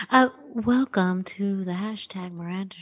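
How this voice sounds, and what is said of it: Very soft NPR-style radio voice. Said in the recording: “my NPR, very soft voice ... do your NPR voice”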